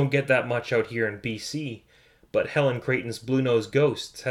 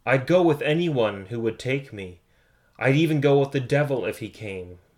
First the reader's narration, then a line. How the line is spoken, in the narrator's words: said